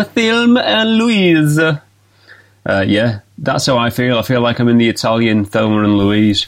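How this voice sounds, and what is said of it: Put-on Italian accent. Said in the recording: “that was my Italian accent as well that you got a glimpse into there ... It was quite a good accent ... Yeah, not too bad.”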